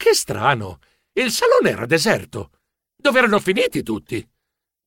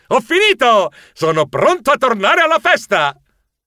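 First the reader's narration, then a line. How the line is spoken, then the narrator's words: Happy yell. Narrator (Italian): ero così contento che urlai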